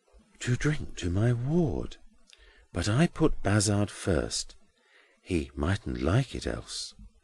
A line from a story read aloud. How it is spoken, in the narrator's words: Grewgious, bending aside under cover of the other to whisper to Edwin